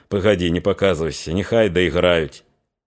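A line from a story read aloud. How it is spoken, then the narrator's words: Whisper. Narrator (Russian): Григорию не захотелось своим появлением прерывать песенников, шепнул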